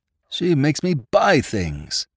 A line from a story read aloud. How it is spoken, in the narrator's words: one swain in the third quarter of his engagement was overheard to moan to a friend